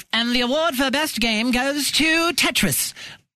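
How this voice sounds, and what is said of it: Bad put-on British accent. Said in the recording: “That was the most amazing British accent ever. ... It was terrible.”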